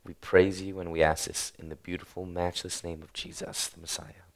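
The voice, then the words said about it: Raspy, unusually deep hoarse voice. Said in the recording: “losing my voice... I'm not naturally a raspy talker... I start talking like 2 octaves lower than I am... big burly man... deep voice”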